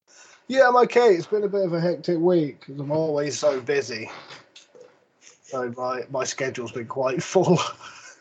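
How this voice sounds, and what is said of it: Tired, worn-out voice. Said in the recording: “Knackered. You can probably hear it in my voice. I'm so fucking tired.”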